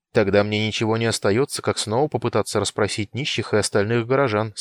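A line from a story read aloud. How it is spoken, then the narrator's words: Plain. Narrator (Russian): сказал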